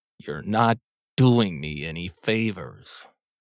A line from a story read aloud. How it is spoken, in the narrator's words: he growled in the general direction of the sky